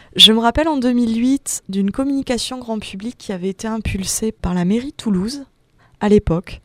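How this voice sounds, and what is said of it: Slight southern French accent. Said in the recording (French): “je suis originaire du Sud-Ouest, ça s'entend peut-être avec mon petit accent méridional”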